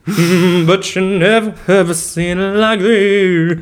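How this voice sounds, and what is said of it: Deep masculine singing voice. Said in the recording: “giving her a deep man voice”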